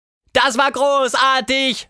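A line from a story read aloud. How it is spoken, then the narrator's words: Shouted. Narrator (German): schrie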